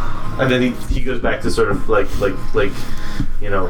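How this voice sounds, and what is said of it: Usual voice. Nothing is said of it.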